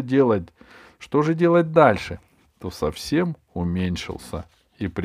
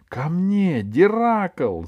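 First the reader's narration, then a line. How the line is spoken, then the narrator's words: Shout. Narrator (Russian): закричала она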